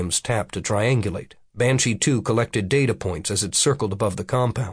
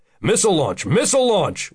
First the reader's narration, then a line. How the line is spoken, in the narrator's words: Williams called out